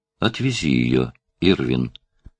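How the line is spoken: Quiet, in silence. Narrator (Russian): сказала тихо Дори в наступившем молчании

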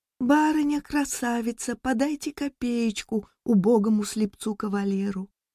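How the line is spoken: Child's silvery singsong. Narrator (Russian): Знакомая девочка нищенка пропела серебряным голосом

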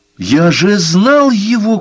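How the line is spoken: Shouting. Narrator (Russian): кричал Лайонель

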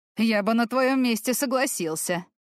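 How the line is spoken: Laughing. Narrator (Russian): рассмеялся Болднер

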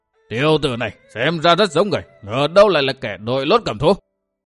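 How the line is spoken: Roar. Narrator (Vietnamese): gầm lên

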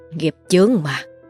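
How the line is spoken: Sighing. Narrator (Vietnamese): thầy Túc chỉ biết thở dài

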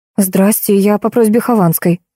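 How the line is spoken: Exclaimed. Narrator (Russian): воскликнула

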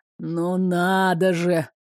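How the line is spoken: Displeased grumble. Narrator (Russian): недовольно пробурчал Кривсун

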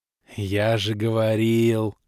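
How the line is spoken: Happy drawl. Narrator (Russian): счастливо протянул лысый эльф

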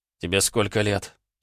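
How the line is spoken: Hoarse. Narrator (Russian): спросил я хриплым голосом

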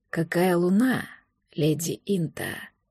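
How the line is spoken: Hoarse voice. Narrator (Russian): сказал хриплый голос

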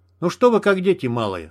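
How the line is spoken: Irritated. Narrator (Russian): раздраженно сказал Стерх, прижимая тангенту командирской рации

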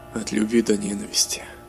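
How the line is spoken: King's whisper. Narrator (Russian): прошептал король

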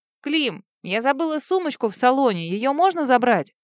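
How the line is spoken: Shouted. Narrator (Russian): прокричала

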